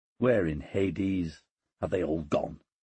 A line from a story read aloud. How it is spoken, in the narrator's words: he muttered